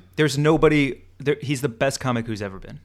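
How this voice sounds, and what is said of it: Loud, yelling voice. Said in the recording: “Why am I yelling at you when you're agreeing with me?”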